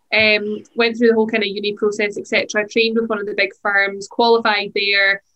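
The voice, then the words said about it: Scottish accent. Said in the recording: “I actually trained in Scotland initially, hence the accent.”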